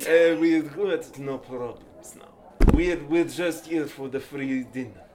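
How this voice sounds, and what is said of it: Put-on Russian accent. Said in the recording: “You sound like a scary vampire! ... What is it, Russian ambassador?”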